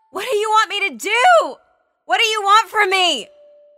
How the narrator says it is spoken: She screamed out

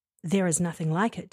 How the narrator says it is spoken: David replied

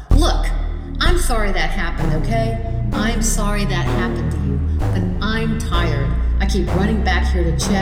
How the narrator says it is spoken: said firmly out loud

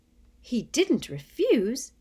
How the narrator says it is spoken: gasped Hermione

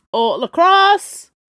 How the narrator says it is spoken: called out the ferryman

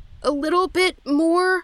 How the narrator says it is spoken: I said through gritted teeth

